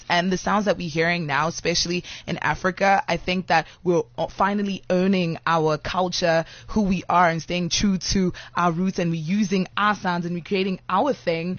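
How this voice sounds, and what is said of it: African accent with American influence. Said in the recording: “I hear an accent... that accent sounds very much like it has an American influence”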